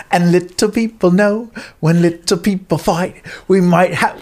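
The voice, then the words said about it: Put-on British accent while singing. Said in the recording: “Why am I doing a British accent?”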